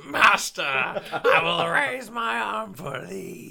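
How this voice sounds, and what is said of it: Impression of humpback Spartacus. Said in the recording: “do an impression of the humpback Spartacus”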